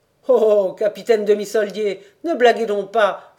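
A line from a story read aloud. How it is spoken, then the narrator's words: Exclaimed. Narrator (French): s'écrie le rentier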